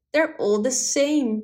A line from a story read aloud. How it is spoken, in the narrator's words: exclaimed